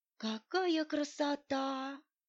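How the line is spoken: Teacher's awed whisper. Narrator (Russian): прошептала учительница

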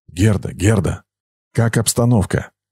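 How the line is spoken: Whisper into radio. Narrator (Russian): прошептал в рацию

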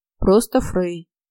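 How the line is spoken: Deep bass voice. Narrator (Russian): пробасил приятель

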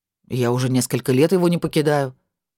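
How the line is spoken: Cold. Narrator (Russian): холодно ответил Виллард

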